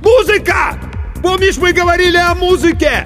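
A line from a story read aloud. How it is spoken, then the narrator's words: Loud shout. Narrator (Russian): Иван, что было мочи, крикнул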